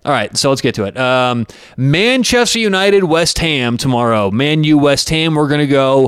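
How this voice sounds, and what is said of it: Usual voice. Nothing is said of it.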